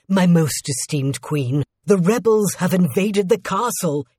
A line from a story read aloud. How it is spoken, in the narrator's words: said in a panicked voice